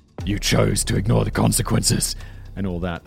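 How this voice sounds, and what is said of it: Batman voice impression. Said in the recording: “I don't know why I tried to do a Batman voice there.”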